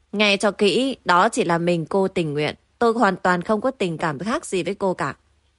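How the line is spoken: Cold. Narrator (Vietnamese): Giang Hạo lạnh lùng nói

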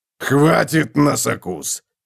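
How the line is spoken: Growling. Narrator (Russian): прорычал Готрек

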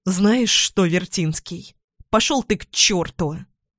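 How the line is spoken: Angry, heated outburst. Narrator (Russian): Зло бросаю в сердцах

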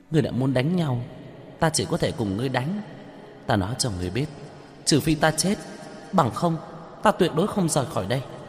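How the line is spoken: Giggling. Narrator (Vietnamese): Hắc Quả Phụ cười khúc khích

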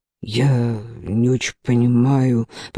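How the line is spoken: Mumbled. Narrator (Russian): пробормотал он

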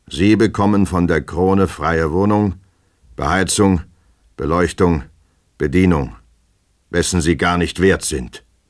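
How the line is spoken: Stern, dreadful pronouncement. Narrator (German): ertönte streng und furchtbar, wie ein Todesurteil, die Antwort Christian Iwanowitschs

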